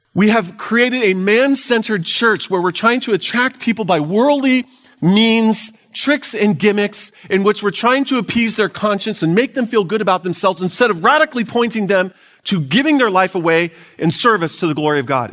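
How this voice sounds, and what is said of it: Yelling, loud preaching voice. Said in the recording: “if you feel like I'm yelling at you, it's because I'm yelling at you”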